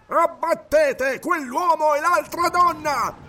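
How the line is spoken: Furious crowd roar. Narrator (Italian): il ruggito di un branco furioso si levò dalla folla

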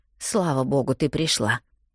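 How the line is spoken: Quiet. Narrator (Russian): негромко говорит она

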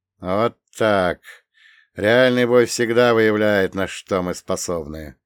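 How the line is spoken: Gloomy. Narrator (Russian): мрачно прокомментировал он

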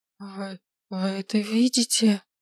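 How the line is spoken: Strange muffled whisper. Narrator (Russian): прошептала каким-то чужим, глухим голосом

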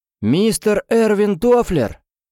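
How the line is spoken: Male voice shouting. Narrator (Russian): крикнул мужской голос

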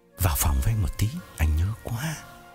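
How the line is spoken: Whisper in ear. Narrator (Vietnamese): Phong ghé tai Hằng thì thầm

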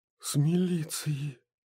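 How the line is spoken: Whisper from doorway. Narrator (Russian): прошептал голос от двери

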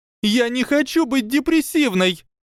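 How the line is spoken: Shout. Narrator (Russian): закричала Панси

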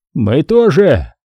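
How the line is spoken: Shouted. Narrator (Russian): крикнул Степа

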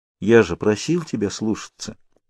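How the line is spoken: Quiet. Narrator (Russian): тихо произнес он

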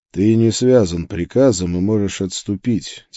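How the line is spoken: Quiet. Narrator (Russian): тихо сказал я ему

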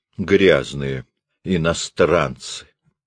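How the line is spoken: Muttering. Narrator (Russian): пробормотал он

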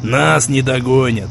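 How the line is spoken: Sudden chuckle. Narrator (Russian): Он неожиданно хохотнул

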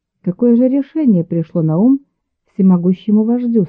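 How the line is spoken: Plain question. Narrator (Russian): спросила она

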